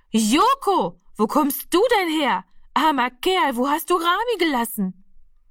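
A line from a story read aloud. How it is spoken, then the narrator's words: Very loud call. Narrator (German): Frau Lenzen ... rief sie so laut, dass alle herbeigerannt kommen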